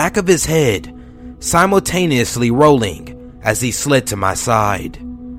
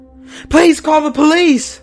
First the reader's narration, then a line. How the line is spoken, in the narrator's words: screamed